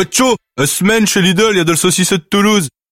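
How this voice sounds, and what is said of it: Exaggerated northern French accent. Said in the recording (French): “avec un accent du Nord”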